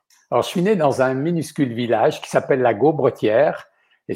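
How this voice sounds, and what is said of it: Slight French accent, not Québécois. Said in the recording (French): “à votre accent, vous n'êtes pas né au Québec ... il m'en reste un peu d'accent”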